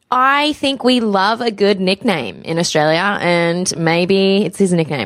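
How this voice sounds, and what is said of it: Australian accent. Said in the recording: “I am the one with the Australian accent”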